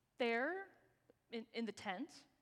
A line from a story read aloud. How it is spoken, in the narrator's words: Abraham said